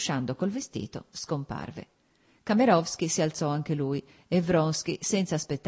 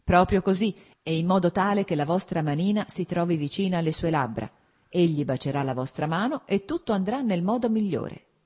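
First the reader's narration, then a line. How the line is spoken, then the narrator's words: Plain. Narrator (Italian): disse Vronsky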